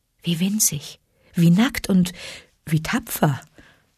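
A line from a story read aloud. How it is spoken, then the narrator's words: Gentle mother wolf. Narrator (German): sagte Mutter Wolf sanft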